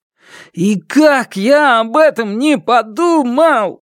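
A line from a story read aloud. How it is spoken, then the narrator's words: Moaning. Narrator (Russian): Простонал он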